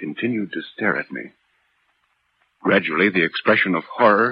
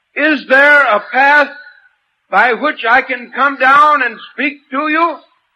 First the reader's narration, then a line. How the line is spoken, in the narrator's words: I shouted